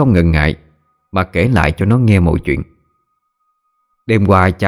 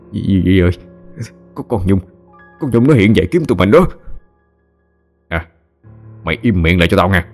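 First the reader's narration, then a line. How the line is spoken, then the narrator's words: Frightened mumbling. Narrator (Vietnamese): thằng Khanh miệng cứ lẩm nhẩm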